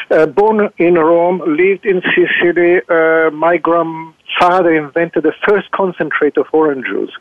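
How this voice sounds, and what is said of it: Italian accent. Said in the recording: “I'm Italian, as you understand from my strange Italian accent”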